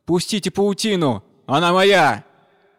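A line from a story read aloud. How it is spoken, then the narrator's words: Frightened loud shout. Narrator (Russian): испугавшись, и громко закричал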